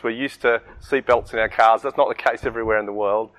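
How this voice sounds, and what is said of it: Australian accent. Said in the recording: “Aussies overseas are pretty noticeable. It's not just our accent.”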